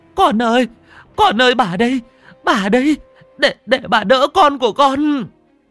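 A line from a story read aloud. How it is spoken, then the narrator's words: Sobbing, tearful. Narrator (Vietnamese): khóc lóc mếu máo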